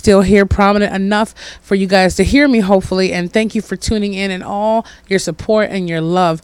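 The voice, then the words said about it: Hoarse voice. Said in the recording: “my hoarseness from trying to overdo a cold in summertime”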